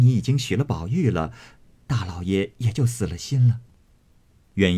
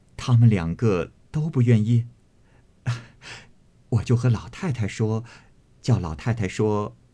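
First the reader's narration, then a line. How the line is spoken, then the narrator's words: Laughing. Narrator (Chinese): 袭人笑道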